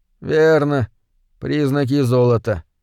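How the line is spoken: Uncertain agreement. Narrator (Russian): неуверенно согласился Крэндалл

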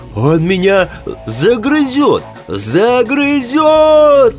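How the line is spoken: Howling. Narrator (Russian): Взвыл Костелян

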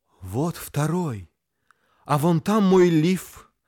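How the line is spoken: Timid. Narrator (Russian): робко сказала

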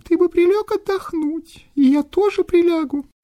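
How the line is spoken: Thin little voice. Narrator (Russian): говорит тоненьким голоском

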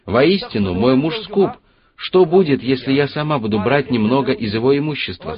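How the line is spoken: Plain. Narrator (Russian): сказала она

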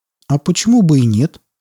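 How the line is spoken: Sudden smirk. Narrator (Russian): внезапно ухмыльнулся японец

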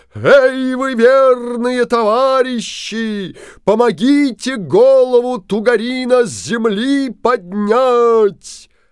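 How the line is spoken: Booming shout. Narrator (Russian): Крикнул Алеша Попович зычным голосом

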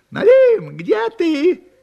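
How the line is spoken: Shout. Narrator (Russian): крикнула лисица

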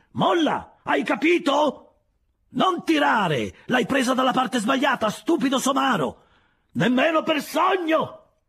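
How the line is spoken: Shouted back. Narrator (Italian): grida lui di rimando

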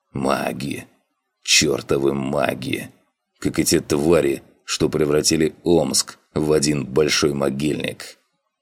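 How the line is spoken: Angry whisper. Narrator (Russian): Зло Сыч прошептал

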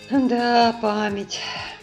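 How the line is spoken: Sighing. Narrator (Russian): вздохнул он

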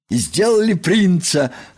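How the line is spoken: Joyful. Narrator (Russian): радостно сообщил Крош

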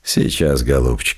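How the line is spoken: Gentle. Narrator (Russian): мягко сказал Лаевский

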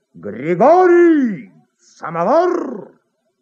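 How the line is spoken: Loud distant yelling. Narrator (Russian): в коридоре кто-то кричал во все горло

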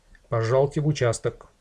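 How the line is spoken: Stern. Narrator (Russian): городовой строго сказал

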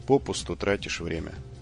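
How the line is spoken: Even, level voice. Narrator (Russian): ровным голосом сказал Джим

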